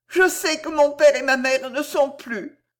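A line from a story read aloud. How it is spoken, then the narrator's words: Sobbing young girl. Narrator (French): sanglota la jeune fille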